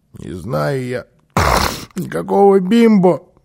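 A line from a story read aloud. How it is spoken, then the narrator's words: Child's grumble. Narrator (Russian): пробурчал малыш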